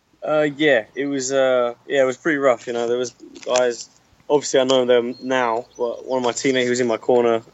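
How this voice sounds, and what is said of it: Non-posh English accent. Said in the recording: “your accent... I haven't got a nice accent... Not from the posh parts... over in England”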